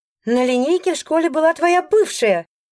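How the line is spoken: Shrieking. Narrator (Russian): взвизгивает Алиса

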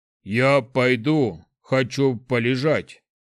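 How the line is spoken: Grumbling troll. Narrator (Russian): пробурчал тролль

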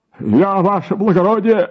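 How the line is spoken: Timid babbling clerk. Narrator (Russian): залепетал писарь

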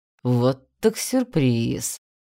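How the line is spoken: Man drawling. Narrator (Russian): протянул мужчина

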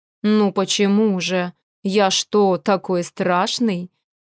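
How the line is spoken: Cold, smiling. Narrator (Russian): Холодно улыбнулся он мне

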